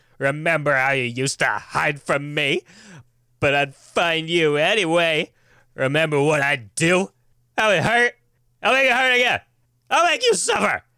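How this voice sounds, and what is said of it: Unhinged, frothing menacing woman's voice. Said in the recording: “Sounds like she's, like, foaming at the mouth at all times ... she sounds like an insane woman ... you did great”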